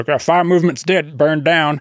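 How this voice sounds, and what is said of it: Dave Ramsey impression. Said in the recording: “That's a good impression.”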